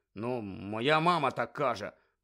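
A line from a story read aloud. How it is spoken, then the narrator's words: Mumbled. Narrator (Ukrainian): пробурмотів Рон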